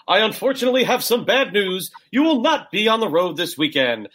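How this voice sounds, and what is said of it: Impression of Howard Finkel. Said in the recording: “I can't do a good impression of the next person, otherwise I would. Howard Finkel.”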